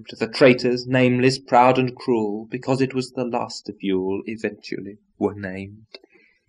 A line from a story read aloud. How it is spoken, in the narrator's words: the mastodons exclaimed